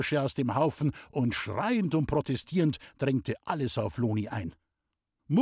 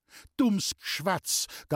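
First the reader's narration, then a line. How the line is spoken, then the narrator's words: Trembling voice. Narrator (German): gab mit bebender Stimme zurück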